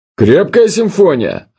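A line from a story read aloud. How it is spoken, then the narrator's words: Yelling. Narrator (Russian): орал он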